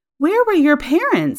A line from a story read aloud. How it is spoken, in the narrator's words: exclaimed